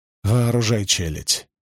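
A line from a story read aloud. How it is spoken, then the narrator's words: Breathless through gritted teeth. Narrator (Russian): процедил он между вздохами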